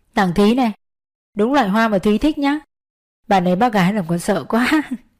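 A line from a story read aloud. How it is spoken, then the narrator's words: Smiling, calm reply. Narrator (Vietnamese): Trung mỉm cười từ tốn đáp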